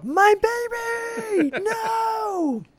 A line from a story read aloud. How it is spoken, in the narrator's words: Vicky, understandably shaken, screams out